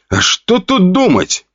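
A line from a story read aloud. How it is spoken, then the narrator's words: Snort. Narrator (Russian): хмыкнул Костя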